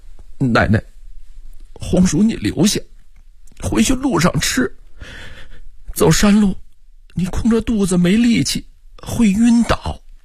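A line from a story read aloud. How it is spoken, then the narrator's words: Choked sobbing. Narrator (Chinese): 郑铁锁 哽咽说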